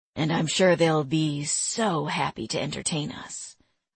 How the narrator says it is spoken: West grumbled

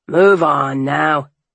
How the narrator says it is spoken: the fishmonger barked at the man

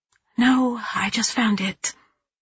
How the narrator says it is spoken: I whisper

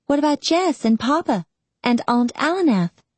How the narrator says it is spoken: asked Rinny eagerly

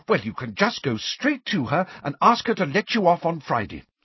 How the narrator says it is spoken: said Angelina fiercely

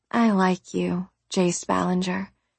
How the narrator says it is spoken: I said softly

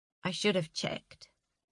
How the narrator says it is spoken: said quietly

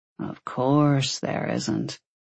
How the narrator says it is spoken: he drawled

